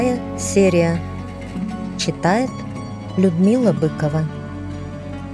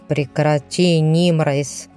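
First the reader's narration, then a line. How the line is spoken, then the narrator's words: Irritated man, wincing. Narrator (Russian): раздраженно поморщился мужчина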